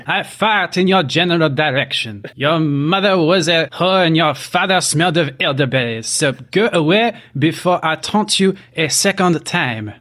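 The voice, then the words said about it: Yelling in a mock accent. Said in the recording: “John Cleese yelling in Monty Python's Holy Grail ... whatever that accent is, it was in that”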